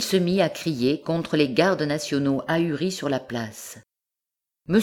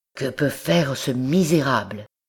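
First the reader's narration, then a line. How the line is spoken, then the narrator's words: Murmured. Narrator (French): murmura-t-il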